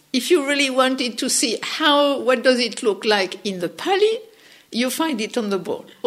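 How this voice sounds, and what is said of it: French accent. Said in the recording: “my funny French accent”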